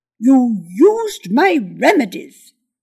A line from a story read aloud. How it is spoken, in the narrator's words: the wizard said sharply